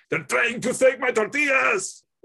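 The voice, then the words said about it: Imitates another person's voice. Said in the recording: “did a really good impression of him... I don't do a good impression.”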